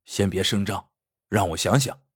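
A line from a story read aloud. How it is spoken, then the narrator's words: Low voice. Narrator (Chinese): 压低声音对副连长说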